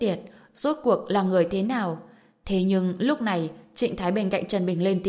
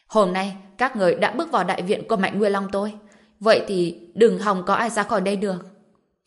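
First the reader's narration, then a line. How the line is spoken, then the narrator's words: Furious roar. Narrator (Vietnamese): đôi mắt Mạnh Nguyên Long chỉ toàn là ngọn lửa giận dữ, gào lên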